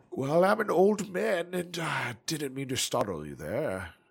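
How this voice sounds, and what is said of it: Put-on old man voice. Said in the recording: “old man voice”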